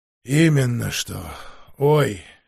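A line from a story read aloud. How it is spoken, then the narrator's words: Hoarse reply. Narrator (Russian): хрипло ответил мастер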